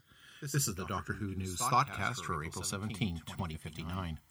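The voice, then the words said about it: Radio announcer voice. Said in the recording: “holographic simulacrum of ... radio voice.”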